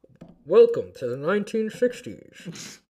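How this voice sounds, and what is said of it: Radio announcer voice. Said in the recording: “This is my radio voice ... Oh, it's pretty good.”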